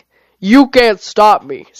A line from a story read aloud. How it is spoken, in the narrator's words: Scarygon roared